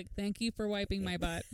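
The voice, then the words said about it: Flat monotone voice. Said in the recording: “In this monotone voice.”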